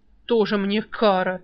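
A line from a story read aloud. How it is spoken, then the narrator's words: Contemptuous snort. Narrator (Russian): еще презрительнее фыркнул Альк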